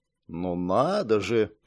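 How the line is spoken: Muttered. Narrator (Russian): пробормотал Линс

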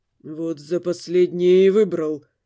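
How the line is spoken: Muttered through teeth. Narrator (Russian): сквозь зубы пробормотал Дамиан

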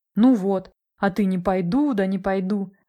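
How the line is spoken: Laughing. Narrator (Russian): рассмеялась Настя

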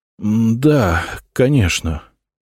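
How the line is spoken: Hoarse, strained voice. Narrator (Russian): севшим голосом сказал он

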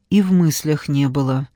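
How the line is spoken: Calm objection. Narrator (Russian): спокойно возразил Павел

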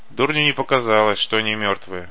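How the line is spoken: Grumbling. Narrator (Russian): буркнул червь

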